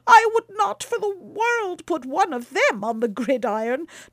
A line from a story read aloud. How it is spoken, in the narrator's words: cried Baucis, shuddering